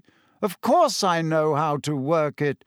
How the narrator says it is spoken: said, waving his hand impatiently

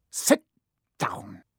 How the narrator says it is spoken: he snapped at Hermione

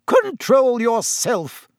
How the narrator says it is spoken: shrieked Madame Pomfrey

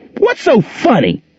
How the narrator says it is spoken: she screamed

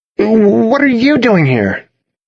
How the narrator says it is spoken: spluttered

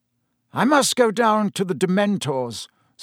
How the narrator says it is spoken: said Dumbledore

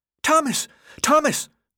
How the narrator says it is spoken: the boy shrieked, his face lit up with excitement

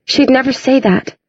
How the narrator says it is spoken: Clary whispered

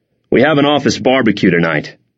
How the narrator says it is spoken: he said

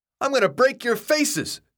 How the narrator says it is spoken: he screamed, so loudly Thomas almost held his hands over his ears

